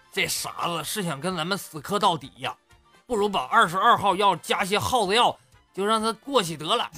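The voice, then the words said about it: Whispered muttering. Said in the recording (Chinese): “趴耳边小声嘀咕”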